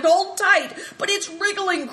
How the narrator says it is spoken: cried Christian

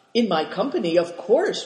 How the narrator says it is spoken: replied Cao Chang eagerly

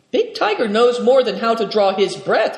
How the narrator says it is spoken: cried Nidong enthusiastically

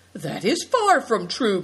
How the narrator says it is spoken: cried Good Fortune

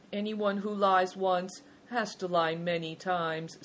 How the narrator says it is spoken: said Big Tiger, sadly

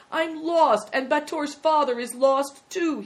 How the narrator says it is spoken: he wailed

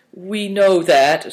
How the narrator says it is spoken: said Christian, sadly

